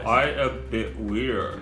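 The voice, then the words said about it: Deep character voice. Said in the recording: “Orange has got a deep voice.”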